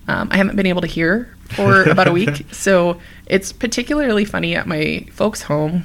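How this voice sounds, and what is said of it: Slightly congested voice. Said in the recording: “slightly congested and can hear it in her own voice.”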